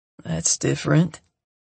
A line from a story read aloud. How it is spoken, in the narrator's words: murmurs to me